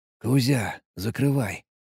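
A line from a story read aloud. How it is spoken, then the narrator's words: Whispered into radio. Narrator (Russian): прошептал я в рацию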